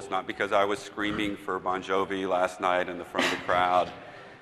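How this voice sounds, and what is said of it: Hoarse voice. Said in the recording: “my voice is a little hoarse, and it is because of a cold”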